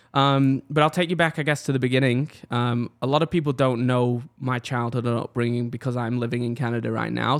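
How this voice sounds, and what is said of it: Mixed British, Australian, Canadian accent. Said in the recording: “you have a weird little accent going on ... my accent's pretty confusing. It's a mix of British, Australian, and Canada”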